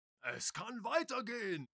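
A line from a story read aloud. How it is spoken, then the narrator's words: Jubilant cry. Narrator (German): jauchzt Kalle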